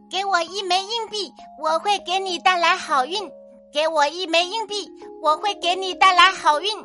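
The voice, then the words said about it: Loud, ringing character voice. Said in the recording (Chinese): “用响亮的声音说”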